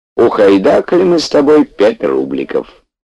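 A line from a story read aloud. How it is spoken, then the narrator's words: Bittersweet old man. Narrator (Russian): дед горько и весело объявлял Петьке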